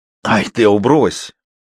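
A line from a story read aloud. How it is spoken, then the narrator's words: Snorting. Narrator (Russian): фыркнула Краснова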